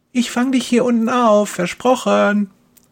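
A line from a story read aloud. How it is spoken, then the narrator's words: Calling out. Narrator (German): ruft Kerstin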